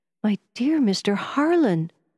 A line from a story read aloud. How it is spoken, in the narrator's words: I exclaimed,